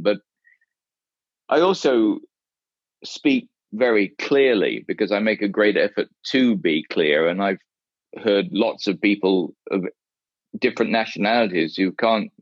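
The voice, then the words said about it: English accent. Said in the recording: “Well, I definitely have an English accent”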